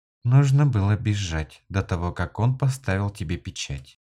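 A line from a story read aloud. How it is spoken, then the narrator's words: Quiet. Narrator (Russian): тихо сказала Тавина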